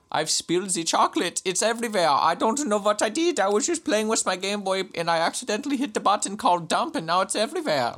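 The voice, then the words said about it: Put-on comic accent. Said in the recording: “what accent am I doing? ... that accent was fantastic”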